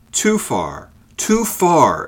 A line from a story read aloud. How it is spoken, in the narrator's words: exclaimed the goodman